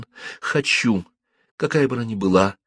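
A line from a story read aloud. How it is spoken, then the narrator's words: Plain. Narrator (Russian): ответила Жанна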